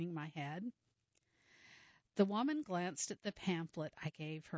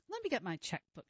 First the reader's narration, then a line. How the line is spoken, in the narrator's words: she said